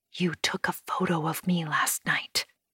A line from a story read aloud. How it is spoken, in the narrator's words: I whisper